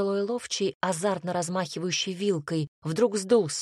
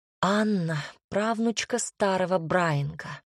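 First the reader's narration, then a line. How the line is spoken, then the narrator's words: Sighing, informing. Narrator (Russian): вздохнув, сообщила я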